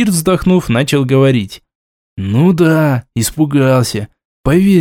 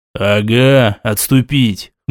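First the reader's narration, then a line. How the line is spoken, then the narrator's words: Scoffing snort. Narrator (Russian): хмыкнул визир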